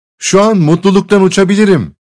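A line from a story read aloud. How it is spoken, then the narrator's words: Joyful cry. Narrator (Turkish): diye neşeyle haykırdı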